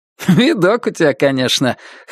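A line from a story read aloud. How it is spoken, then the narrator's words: Short chuckle. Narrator (Russian): хохотнул Руслан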